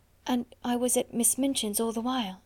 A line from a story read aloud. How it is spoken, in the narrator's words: she half whispered